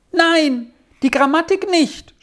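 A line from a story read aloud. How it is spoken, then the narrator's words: Sudden cry. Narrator (German): schrie Squirrel auf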